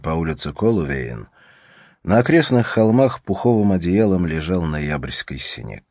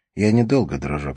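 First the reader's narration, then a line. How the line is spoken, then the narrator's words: Plain. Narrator (Russian): сказала она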